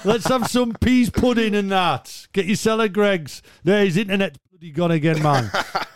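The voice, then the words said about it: Put-on Geordie accent. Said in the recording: “give my Geordie accent a rating out of ten ... I'd, give it a healthy seven.”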